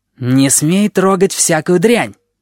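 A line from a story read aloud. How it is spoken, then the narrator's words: Sphinx's sharp shout. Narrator (Russian): прикрикнул сфинкс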